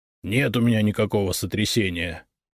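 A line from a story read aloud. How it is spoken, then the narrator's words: Grumbled. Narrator (Russian): буркнул Игнат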